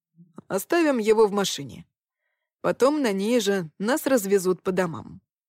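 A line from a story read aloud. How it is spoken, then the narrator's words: Plain. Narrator (Russian): сказал Стас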